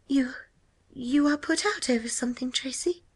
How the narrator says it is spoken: she asked nervously

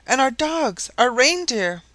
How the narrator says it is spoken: Joliffe suddenly exclaimed

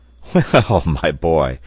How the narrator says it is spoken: said Pencroft, laughing

